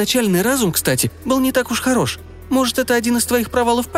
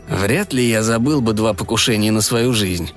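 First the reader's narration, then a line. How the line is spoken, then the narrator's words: Annoyed mutter. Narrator (Russian): досадливо буркнул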